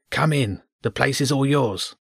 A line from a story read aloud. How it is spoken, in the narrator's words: it said in a hushed tone